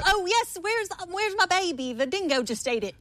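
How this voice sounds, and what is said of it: Put-on Australian accent. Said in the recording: “Australian accent.”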